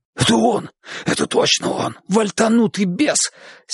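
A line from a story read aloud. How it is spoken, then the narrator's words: Hoarse whisper in ear. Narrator (Russian): сипел на ухо престарелому седоволосому бормену парень с косым белым шрамом на щеке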